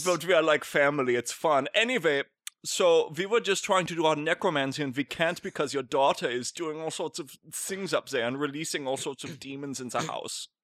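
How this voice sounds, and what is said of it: Thick put-on German accent. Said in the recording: “You have a very thick German accent.”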